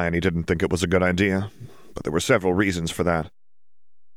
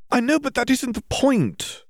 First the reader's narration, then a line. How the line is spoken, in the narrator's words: Hermione exclaimed